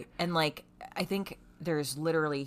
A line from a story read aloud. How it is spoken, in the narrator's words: he stutters